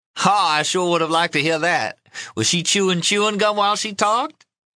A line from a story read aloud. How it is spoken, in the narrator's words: Miss Love laughed